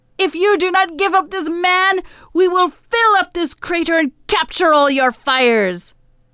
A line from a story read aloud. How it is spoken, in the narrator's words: The dragon goddess screamed